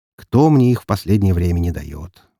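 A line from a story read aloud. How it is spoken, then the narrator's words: Sigh. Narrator (Russian): вздохнул я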